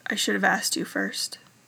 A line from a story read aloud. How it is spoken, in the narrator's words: he mumbled against Styles' collarbone